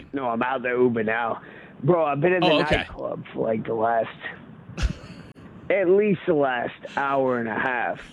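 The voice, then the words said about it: Worn-out, slightly drunk-sounding voice. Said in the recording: “You sound like your voice is a little bit hammered there. Were you screaming in the club”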